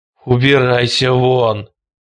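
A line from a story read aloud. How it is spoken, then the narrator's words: Groaned. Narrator (Russian): простонал Хелстон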